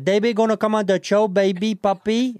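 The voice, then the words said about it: Put-on Puerto Rican accent. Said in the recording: “Can I hear your Puerto Rican accent? ... Yeah, Puerto Rican, yeah. ... That's more Dominican, but okay.”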